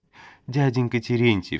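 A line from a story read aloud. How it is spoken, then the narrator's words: Sobbing. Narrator (Russian): всхлипывает Фёкла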